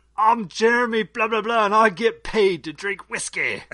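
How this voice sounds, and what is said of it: Poor put-on Scottish accent. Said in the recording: “your impression of that Scottish guy ... That's a terrible version of a Scottish accent”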